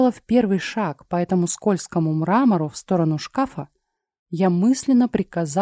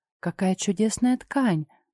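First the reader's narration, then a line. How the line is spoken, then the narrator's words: Whispered. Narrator (Russian): прошептала Мила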